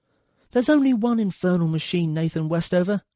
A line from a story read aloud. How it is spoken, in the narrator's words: shouted